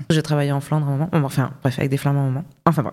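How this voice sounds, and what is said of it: Toulouse-Belgian mixed accent, harsh Rs. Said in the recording (French): “la rencontre de Toulouse avec Bruxelles, ça a donné ça comme accent... j'ai un peu des R intenses, comme ça, un peu belge... ça racle... assez intensément... c'est presque flamand comme accent”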